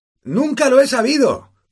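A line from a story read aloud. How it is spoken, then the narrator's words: Shouting over loud noise. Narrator (Spanish): gritó Harry a Hagrid para hacerse oír sobre el estruendo del carro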